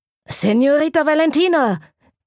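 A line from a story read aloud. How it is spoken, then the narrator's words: Breathless rider calling from afar. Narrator (German): rief der atemlose Reiter schon von Weitem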